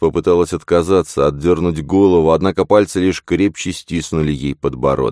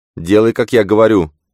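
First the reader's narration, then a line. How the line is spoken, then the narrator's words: Stern, authoritative abbess. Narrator (Russian): строго произнесла настоятельница тоном, подчеркивающим ее высокое положение в обители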